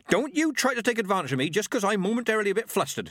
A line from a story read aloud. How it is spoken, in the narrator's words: she snapped